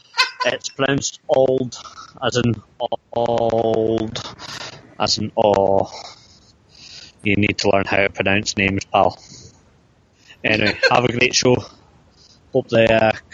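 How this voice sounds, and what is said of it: Scottish accent. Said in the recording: “my lovely Scottish accent ... I am a stereotypical Scot”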